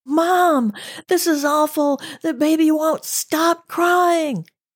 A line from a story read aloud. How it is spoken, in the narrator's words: The firecracker, tears streaming down her face, screaming